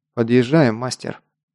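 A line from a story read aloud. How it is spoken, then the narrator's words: Quiet. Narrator (Russian): негромко проговорил Гар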